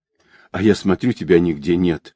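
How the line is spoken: Relieved sigh, laughing. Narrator (Russian): облегченно вздохнув, Настя засмеялась

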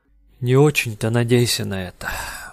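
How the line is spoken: Sighing. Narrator (Russian): вздохнул Фармен

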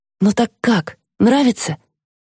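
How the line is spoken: Uncertain question. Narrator (Russian): неуверенно переспрашивает Белла

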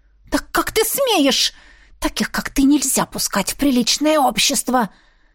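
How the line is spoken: Annoyed hiss. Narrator (Russian): раздосадованно шипела она

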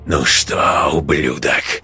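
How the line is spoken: Hiss of desperate fury. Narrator (Russian): прошипел Матвеич с яростью обреченного

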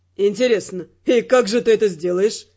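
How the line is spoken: Mocking inquiry. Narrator (Russian): Насмешливо осведомился Родрик

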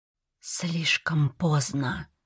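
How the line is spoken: Whispered. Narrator (Russian): прошептала она

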